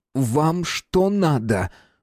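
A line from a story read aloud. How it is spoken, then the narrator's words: Ringing, angrily embarrassed exclamation. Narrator (Russian): воскликнул Руднев, звенящим от злого смущения голосом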